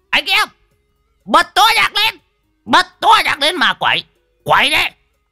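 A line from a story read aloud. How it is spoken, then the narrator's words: Old man howling. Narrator (Vietnamese): lão Đồng mồm rú lên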